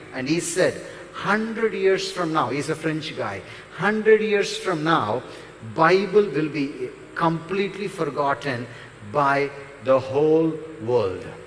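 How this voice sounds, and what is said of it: Strong Indian accent. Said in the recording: “probably I'm pronouncing super Indian accent”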